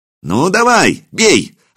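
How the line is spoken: Excited shout. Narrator (Russian): азартно выкрикнул Илья

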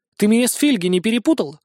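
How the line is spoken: Girl's exclamation. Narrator (Russian): воскликнула девушка

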